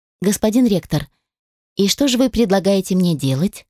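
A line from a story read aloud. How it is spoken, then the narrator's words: Outwardly calm, inwardly agitated. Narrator (Russian): Начала я психовать, хотя внешне выглядела совершенно невозмутимо и спокойно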